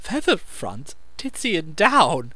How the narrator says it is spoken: she choked

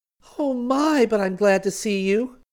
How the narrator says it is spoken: Celia cried

